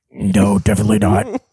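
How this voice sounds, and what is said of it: Low-voiced impression of another person. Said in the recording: “Who was the low voice? ... This is my impersonation”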